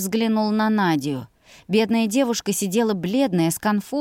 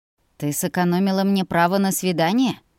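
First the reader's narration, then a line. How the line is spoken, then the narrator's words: Dragon's snort. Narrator (Russian): Хмыкнул серебряный дракон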